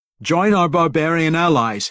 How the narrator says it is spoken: he shouted to his soldiers

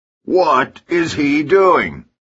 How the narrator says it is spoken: he shouts in an incredulous voice

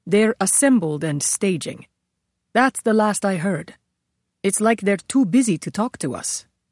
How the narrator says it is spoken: He added in a graver tone

